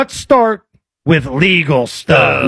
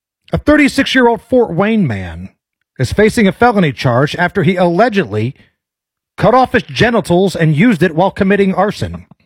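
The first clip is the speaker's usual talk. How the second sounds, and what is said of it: Straight newscaster delivery. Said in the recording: “I'll kind of just change my cadence a little bit to make it slightly different ... this will be my straight newscaster voice”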